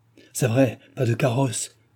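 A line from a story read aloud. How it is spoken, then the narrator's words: Exclaimed. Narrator (French): s'écria Jean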